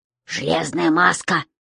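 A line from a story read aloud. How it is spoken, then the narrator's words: Hiss. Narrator (Russian): прошипел Том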